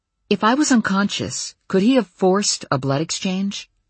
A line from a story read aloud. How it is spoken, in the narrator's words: He sighed